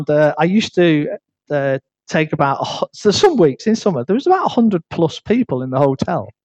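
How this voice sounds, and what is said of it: Northern English accent. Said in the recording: “my northern accent.”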